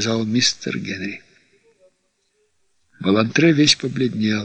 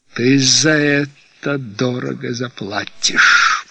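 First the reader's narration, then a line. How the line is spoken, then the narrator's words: Hiss. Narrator (Russian): прошипел Балантре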